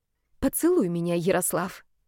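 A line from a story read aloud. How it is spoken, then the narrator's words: Quiet but firm. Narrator (Russian): сказала тихо, но твердо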